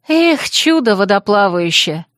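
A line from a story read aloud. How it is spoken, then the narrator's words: Sighing. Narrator (Russian): вздохнула я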